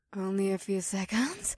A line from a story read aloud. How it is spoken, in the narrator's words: Mira panted